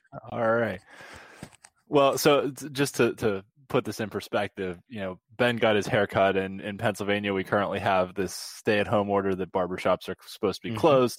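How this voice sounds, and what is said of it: Put-on Pittsburgh accent. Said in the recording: “do it in a Pittsburgh accent? ... Oh, of course.”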